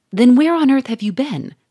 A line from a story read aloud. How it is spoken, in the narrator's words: cried Monsieur Fourmeret